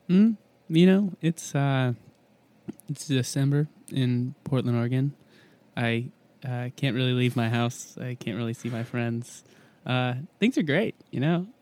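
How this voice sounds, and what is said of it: Smooth public-radio announcer voice. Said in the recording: “You've got a really good NPR voice.”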